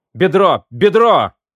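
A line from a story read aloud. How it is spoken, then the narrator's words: Shouting. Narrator (Russian): крикнул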